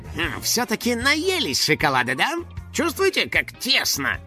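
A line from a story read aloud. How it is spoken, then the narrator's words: Grumbling. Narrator (Russian): проворчал Финни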